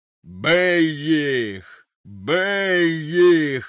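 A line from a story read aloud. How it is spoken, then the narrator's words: Thunderous roar. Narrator (Ukrainian): ревів громовим голосом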